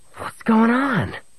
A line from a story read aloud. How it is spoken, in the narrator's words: Murg snarled into Han's face